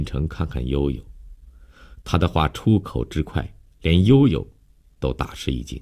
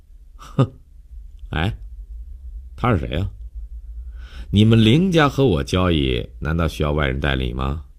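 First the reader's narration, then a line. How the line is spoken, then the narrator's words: Sneering, pointed question. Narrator (Chinese): 江帆……冷笑了一下，故意对林信成问道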